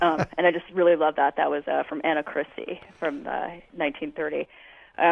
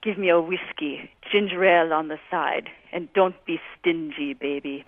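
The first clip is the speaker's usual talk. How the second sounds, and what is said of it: Greta Garbo accent impression. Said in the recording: “in that classic Garbo accent”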